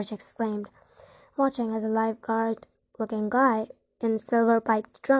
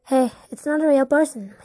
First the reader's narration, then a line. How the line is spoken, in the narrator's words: he called out, sounding confused